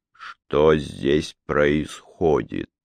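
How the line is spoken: Slow, icy repetition. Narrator (Russian): медленно повторил он, и слова его были как ледяные иглы

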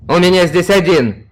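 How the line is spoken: Shout. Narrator (Russian): крикнул технодесантник

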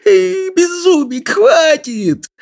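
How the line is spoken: Pleading between laughs. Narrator (Russian): Взмолился он между приступами хохота

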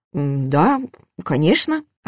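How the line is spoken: Uncertain. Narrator (Russian): ответил он неуверенно

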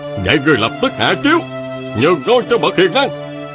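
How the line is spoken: Commanding shout. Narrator (Vietnamese): Huệ Dương hét lên

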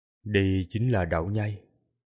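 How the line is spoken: Quiet voice. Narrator (Vietnamese): Tô Minh nhỏ giọng nói

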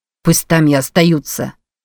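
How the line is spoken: Angry interjection. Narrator (Russian): сердито вмешался Кэрик

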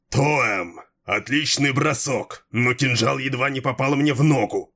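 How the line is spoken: Delighted roar. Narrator (Russian): восторженно проревел Малхион

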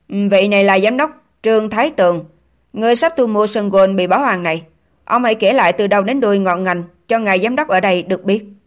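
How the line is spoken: Cold. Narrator (Vietnamese): Triệu Công Ảnh lạnh lùng nói

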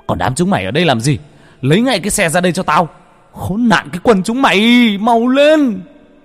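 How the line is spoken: Yelling, cursing. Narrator (Vietnamese): Cha vẫn la hét, mắng chửi

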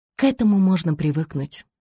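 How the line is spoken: Sighing. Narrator (Russian): вздохнула Ребекка

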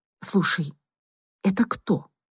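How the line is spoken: Quiet question. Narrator (Russian): негромко спросила Настя

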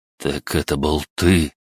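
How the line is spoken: Horrified whisper. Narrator (Russian): с ужасом прошептал

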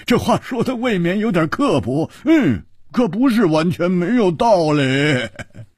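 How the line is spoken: Roaring laughter. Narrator (Chinese): 胡铁花大笑

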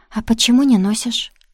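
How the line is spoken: Sighing confession. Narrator (Russian): Милецкий вздохнул и признался

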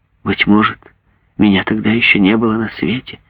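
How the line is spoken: Timid young woman. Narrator (Russian): Девушка робко промолвила

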